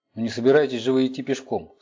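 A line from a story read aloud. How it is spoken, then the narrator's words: Plain. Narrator (Russian): сказала Цицилия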